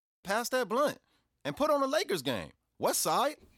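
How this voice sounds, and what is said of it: Put-on hard L.A. American accent. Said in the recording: “how did you master that L.A. accent like that? You know, that hard. ... you sound just like my son's barber”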